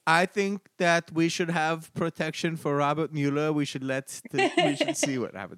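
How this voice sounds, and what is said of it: Badly done imitation accent. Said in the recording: “That was a horrible accent.”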